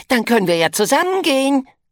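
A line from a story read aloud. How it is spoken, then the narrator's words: Enthusiastic shout. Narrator (German): ruft Krocker begeistert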